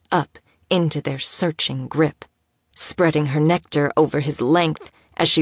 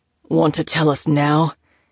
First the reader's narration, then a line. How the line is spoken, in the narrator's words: growled out breathlessly